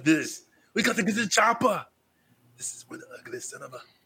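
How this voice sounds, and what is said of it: Imitates another person's voice. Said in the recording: “do your Schwarzenegger impersonation.”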